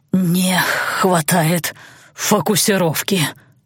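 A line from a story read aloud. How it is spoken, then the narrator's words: Strained hoarse wheeze. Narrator (Russian): с трудом контролируя заклинание, прохрипел лорд Балар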